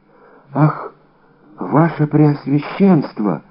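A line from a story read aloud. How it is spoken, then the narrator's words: Horrified whisper. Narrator (Russian): прошептал Бонасье, в ужасе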